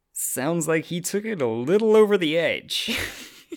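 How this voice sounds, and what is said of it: Imitates a TV character's voice. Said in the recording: “That was a really good Angel impression.”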